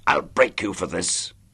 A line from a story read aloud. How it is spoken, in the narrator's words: snarled Daly